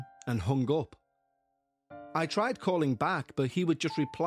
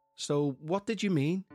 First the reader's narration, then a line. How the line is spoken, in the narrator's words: I asked